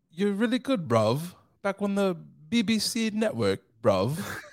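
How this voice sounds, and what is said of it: Attempted British accent. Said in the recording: “We are trying our hardest to have a British accent”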